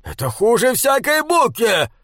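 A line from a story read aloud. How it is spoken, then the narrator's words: Growl. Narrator (Russian): прорычал он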